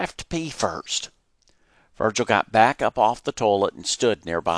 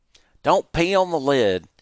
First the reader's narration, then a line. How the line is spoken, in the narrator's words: he grumbled